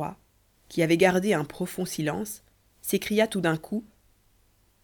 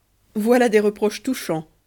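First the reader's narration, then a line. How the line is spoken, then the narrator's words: King, mocking. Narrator (French): dit le roi d'un ton railleur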